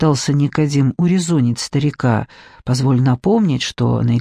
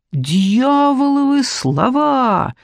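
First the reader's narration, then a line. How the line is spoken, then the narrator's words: Exclamation with trembling lips. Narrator (Russian): воскликнул брат Даниил, и губы его затряслись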